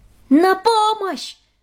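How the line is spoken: Shouting for help. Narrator (Russian): закричала Хедвиг

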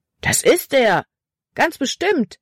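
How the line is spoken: Boy calling out. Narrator (German): rief ein anderer Junge

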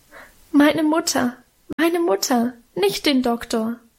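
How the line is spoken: Sobbing. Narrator (German): schluchzte ich

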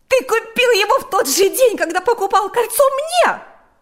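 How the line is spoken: Shouting. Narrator (Russian): закричала Марьяна

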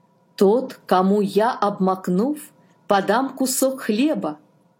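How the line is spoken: Plain. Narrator (Russian): сказал Иисус

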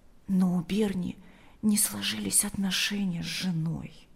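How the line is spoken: Quietly added. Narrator (Russian): добавила она тихо

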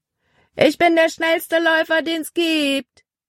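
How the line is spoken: Calling out. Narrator (German): rief er ihnen zu

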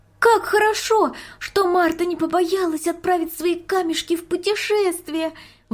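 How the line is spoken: Exclaiming. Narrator (Russian): воскликнула Марийка

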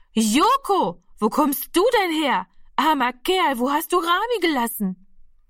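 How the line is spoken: Very loud call. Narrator (German): rief sie so laut, dass alle herbeigerannt kommen

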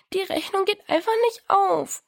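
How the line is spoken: Sobbing. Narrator (German): schluchzte Diana

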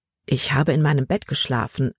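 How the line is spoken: Plain. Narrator (German): antwortete Herr Kimberly

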